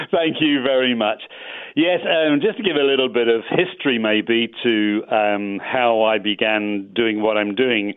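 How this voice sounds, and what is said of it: English accent. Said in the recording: “I'm very English, so I hope my English accent works really well on your show ... we're always impressed here in the U.S. with British accents”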